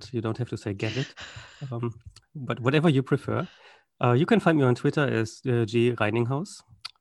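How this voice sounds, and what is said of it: German accent. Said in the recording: “my accent is German”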